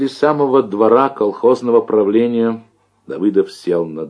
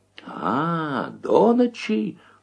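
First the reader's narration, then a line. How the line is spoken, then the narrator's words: Furious women moaning. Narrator (Russian): стонали разъяренные бабы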